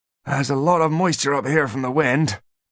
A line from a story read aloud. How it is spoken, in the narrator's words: gasped the dwarf